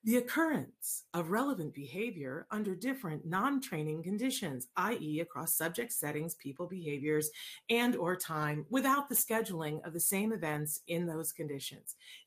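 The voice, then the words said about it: Flat elevator-announcement voice. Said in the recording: “I'll put on my best elevator voice.”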